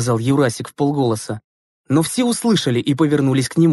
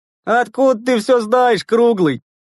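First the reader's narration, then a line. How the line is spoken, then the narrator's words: Mocking question. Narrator (Russian): насмешливо спросил Овчаренко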